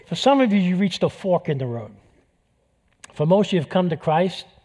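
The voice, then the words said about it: New York accent. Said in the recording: “when I start talking about New York, this whole New York accent comes out”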